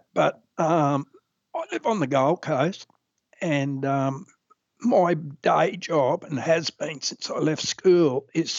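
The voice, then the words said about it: Strained voice that breaks in and out. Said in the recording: “my voice is a little bit strange ... damaged my vocal cords, and that's why my voice breaks in and out a bit these days”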